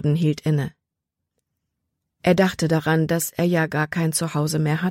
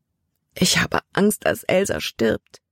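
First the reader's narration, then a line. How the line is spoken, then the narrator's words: Sobbing. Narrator (German): schluchzte sie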